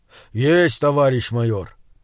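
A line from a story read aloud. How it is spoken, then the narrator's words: Deep bass voice. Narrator (Russian): пробасил гигант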